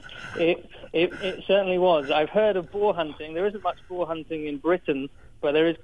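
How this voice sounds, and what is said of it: British accent. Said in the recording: “you sound from your accent like you might be from across the Great Pond originally”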